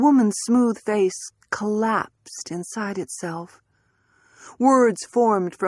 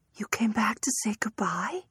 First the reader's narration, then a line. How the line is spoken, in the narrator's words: Clara whispered